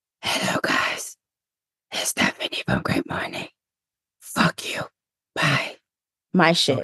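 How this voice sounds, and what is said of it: Batman voice impression. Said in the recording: “your Batman impression”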